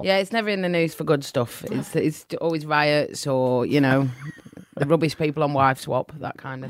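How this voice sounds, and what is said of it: English accent from Manchester. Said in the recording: “You've got a Pommy accent”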